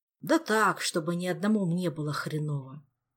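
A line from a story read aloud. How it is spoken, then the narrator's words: Sighing. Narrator (Russian): Вздохнул сосед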